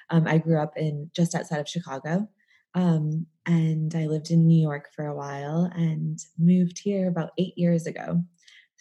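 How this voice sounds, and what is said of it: American accent. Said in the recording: “as you can probably tell, I have an American accent.”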